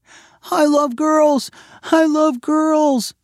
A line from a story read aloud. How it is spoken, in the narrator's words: Sydney shouted